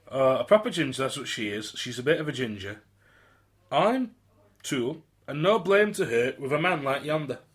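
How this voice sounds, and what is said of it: Put-on Yorkshire accent. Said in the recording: “You've gone Yorkshire again. ... I've gone Yorkshire.”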